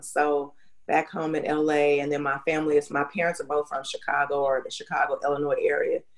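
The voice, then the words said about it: Southern US accent. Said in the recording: “I kind of detect a Southern accent ... You don't sound like you're from Los Angeles. You are definitely from the South.”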